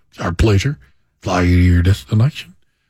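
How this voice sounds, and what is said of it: Put-on Southern drawl, pilot voice. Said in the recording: “I always have like a good Southern drawl. ... Southern drawls ... They sound like fighter pilots”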